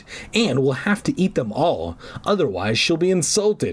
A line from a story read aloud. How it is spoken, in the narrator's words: I groaned